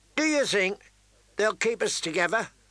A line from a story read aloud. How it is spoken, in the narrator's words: Pip wondered as they gorged themselves happily